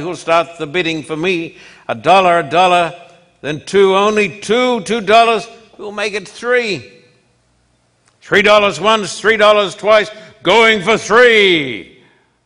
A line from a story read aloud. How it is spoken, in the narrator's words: cried